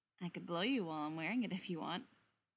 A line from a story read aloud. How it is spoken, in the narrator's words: murmurs